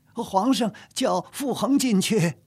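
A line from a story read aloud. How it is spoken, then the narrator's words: Calling out. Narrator (Chinese): 王迟一路小跑，叫着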